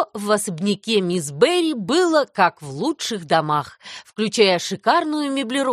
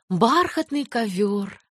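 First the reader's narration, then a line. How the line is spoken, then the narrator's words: Dreamy sigh. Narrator (Russian): мечтательно вздохнула Энни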